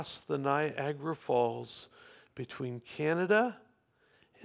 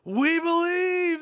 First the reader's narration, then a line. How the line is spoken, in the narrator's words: they all yelled